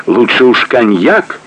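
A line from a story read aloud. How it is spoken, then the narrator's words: Laughing loudly. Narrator (Russian): хохотал Клейст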